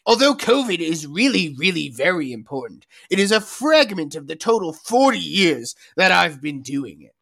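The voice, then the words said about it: Impression of Anthony Fauci. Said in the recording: “I need to read this in my Fauci voice.”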